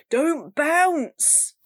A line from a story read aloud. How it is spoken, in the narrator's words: Ben yelled